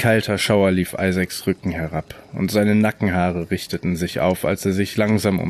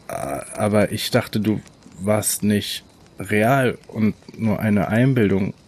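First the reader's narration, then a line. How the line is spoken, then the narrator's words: Stuttering. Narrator (German): stotterte er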